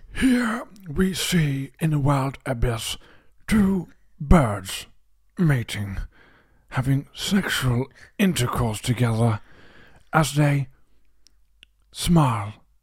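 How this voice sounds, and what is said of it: Good David Attenborough impression. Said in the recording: “you've actually got a good one there ... That's a good impression ... the ghost of Attenborough”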